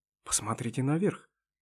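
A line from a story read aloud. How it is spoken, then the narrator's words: Whispered suggestion. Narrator (Russian): шепотом предложил первый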